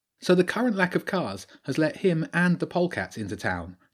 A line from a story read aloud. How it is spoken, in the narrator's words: Jenny asked